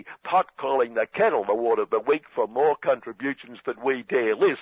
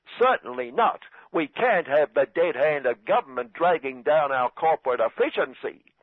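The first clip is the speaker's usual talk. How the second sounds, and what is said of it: Deliberately bad put-on accent. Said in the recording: “my bad accent”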